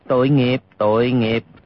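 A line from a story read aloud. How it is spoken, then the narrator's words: Sighing. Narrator (Vietnamese): Hư Trúc thở dài nói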